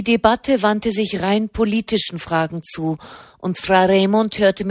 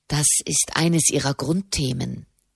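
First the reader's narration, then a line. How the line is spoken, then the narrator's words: Quiet explanation. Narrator (German): erklärte Soderini leise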